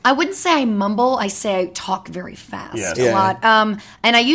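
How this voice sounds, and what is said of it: Usual voice. Nothing is said of it.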